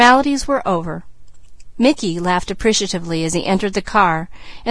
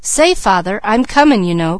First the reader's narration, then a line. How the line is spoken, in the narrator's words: cried Junior